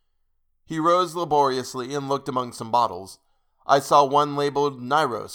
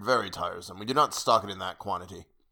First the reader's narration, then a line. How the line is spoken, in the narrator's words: he muttered